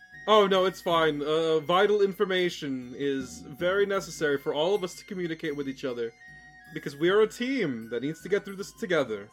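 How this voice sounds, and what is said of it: Heavily sarcastic tone. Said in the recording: “That was sarcasm, right? ... Oh, absolutely, that was sarcasm. ... Malicious sarcasm.”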